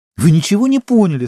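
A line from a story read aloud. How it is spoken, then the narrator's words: Indignant exclamation. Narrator (Russian): с возмущением воскликнула Сима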